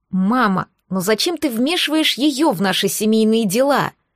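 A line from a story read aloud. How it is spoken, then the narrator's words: Angry hiss. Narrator (Russian): Зло прошипела Рея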